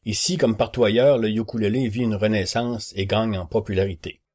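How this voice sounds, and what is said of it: Québécois French accent. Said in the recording (French): “Vous reconnaîtrez probablement à mon accent, oui oui, je suis québécois”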